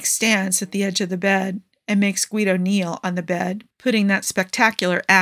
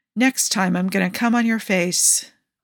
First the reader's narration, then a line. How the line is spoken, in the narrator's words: Malik groans